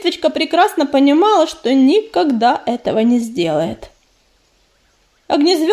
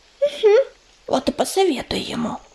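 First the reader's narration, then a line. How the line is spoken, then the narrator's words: Squirrel whispering back. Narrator (Russian): прошептала в ответ белка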